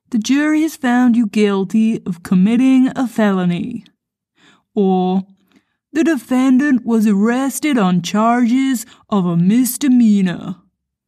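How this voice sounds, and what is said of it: Deliberately bad American accent. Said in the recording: “putting on another terrible American accent again ... I have again attempted to use my terrible American accent”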